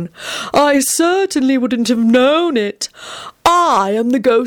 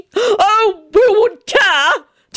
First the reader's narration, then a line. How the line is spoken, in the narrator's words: Tony shouted wildly as he quivered and shook in his seat